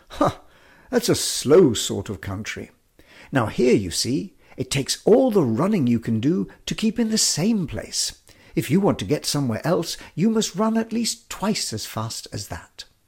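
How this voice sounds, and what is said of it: Imperious haughty character voice. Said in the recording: “in a very imperious voice,”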